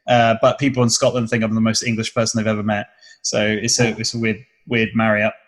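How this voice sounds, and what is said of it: Southern English accent, clear diction. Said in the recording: “my accent is quite southern ... a Scottish twang on some of the things I say ... my accent generally comes from the south of England ... probably the least tapered ... the diction's quite good. It's well pronounced.”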